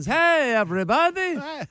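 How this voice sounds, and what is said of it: Cartoon doctor character voice. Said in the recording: “Why does the doctor have an accent? ... It's Dr. Nick from The Simpsons.”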